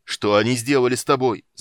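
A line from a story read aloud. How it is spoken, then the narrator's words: Choked shout. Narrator (Russian): закричал Карамон сдавленным голосом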